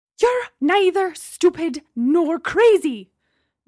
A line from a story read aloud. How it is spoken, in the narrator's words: Gemma shouted, returning to her previous rage